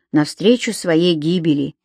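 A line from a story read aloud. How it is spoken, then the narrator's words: Quiet addition. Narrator (Russian): тихо добавил Том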